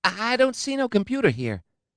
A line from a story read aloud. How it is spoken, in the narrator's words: he said in a thin and reedy voice